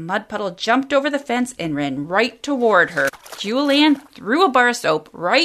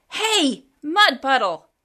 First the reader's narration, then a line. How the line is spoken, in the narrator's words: yelled